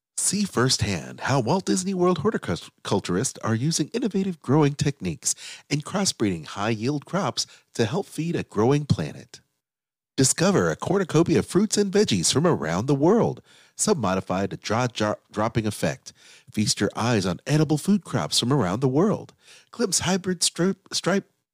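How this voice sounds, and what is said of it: Living with the Land ride narrator voice. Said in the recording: “my best Living Land voice”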